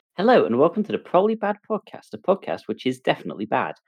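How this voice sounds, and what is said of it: News presenter voice. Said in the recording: “I don't know why I'm talking in this news presenter voice”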